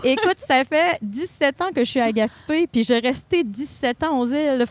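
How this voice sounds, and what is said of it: Magdalen Islands French accent. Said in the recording (French): “ton bel accent, Madelino”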